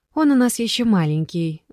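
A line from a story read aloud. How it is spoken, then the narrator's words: Sigh. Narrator (Russian): вздохнула Жанна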